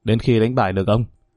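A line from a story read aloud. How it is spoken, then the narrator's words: Cold reply. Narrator (Vietnamese): Tên mặt đen lạnh lùng trả lời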